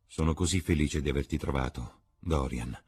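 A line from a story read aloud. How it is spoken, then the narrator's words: Grave tone. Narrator (Italian): disse con tono grave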